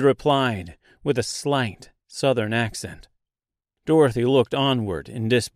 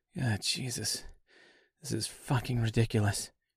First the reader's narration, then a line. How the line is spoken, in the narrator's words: she said quietly to herself